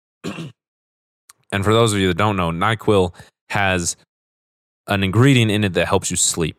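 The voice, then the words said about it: Raspy, sore-throated voice. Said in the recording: “my voice is a little bit more raspy than normal ... I've got a bit of a sore throat”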